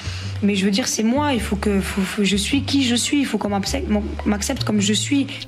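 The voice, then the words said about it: Eastern French Lorraine suburban accent. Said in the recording (French): “J'ai un accent euh, bah, de l'Est, de Lorraine, en plus de banlieue.”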